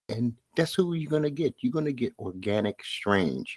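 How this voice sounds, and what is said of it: Brooklyn New York accent. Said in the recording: “my Brooklyn accent... the form of a Brooklyn accent or a New York accent”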